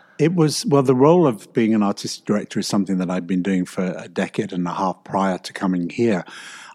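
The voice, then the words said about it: English accent. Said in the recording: “in case you couldn't tell from the accent ... From across the pond in England”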